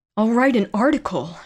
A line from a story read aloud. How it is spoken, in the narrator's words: she thought wildly